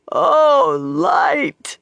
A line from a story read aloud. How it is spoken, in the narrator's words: wailed, the tears came in torrents